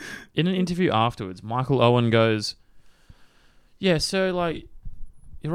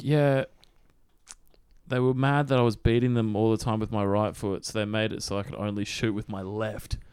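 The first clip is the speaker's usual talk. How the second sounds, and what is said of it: Weird put-on English accent. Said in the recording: “I can't do a Belgian accent, so I'm doing this weird English one.”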